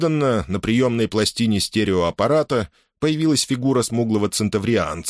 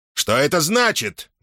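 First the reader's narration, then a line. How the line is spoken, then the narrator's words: Roaring man. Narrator (Russian): взревел вице-адмирал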